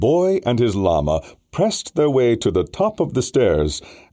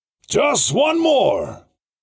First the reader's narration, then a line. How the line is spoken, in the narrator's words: the driver hollered